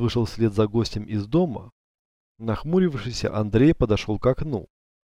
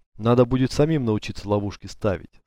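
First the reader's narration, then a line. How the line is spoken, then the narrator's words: Plain. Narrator (Russian): сказал он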